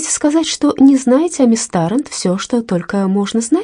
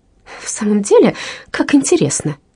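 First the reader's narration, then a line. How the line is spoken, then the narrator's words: Exclaimed with broken laughter. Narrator (Russian): воскликнула миссис Луна, прерывисто смеясь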